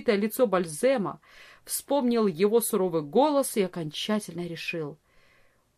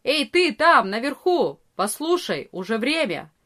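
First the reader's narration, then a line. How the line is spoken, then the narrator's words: Loud shouting. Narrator (Russian): Арие кричал громко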